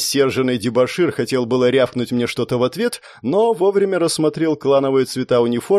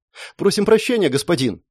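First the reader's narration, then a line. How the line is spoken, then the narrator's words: Rapid chatter. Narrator (Russian): затараторил один из стюардов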